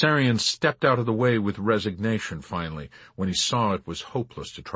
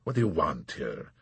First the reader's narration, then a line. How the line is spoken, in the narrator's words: he asked coldly